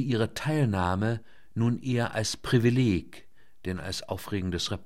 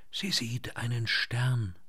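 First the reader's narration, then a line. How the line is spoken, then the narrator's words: Friend whispering. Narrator (German): flüsterte die Freundin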